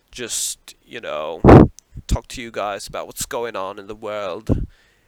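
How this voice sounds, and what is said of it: Poor put-on British accent. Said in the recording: “talk in my British accent. I don't even know if that's a good British accent. It's probably fucking horrible, actually.”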